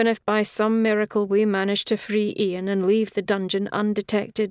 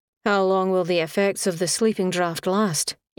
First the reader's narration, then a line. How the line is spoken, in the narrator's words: Egan said